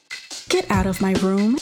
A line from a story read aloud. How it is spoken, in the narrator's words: she said in the same newscaster voice she was reading in